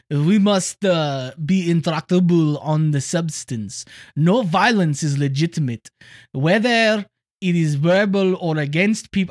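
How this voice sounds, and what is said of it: Put-on French accent. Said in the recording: “Let's do this in a French accent. ... I can't do it.”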